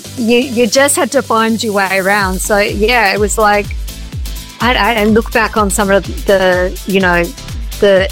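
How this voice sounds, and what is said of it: Strong Australian accent. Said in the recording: “you think my accent is strong now, whoa, my Aussie accent”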